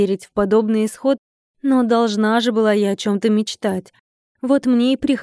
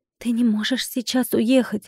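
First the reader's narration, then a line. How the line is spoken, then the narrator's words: Whisper. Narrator (Russian): прошептала я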